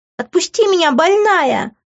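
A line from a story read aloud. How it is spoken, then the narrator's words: Shrieking. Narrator (Russian): визжала Иви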